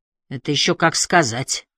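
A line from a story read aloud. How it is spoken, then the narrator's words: Skeptical snort. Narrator (Russian): хмыкнул Холм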